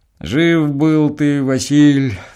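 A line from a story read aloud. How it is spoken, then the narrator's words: Grumbling deacon. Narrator (Russian): ворчал дьячок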